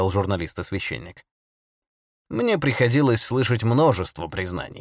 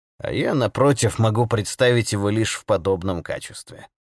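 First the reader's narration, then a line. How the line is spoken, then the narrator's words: Calm. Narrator (Russian): спокойно произнес отец Браун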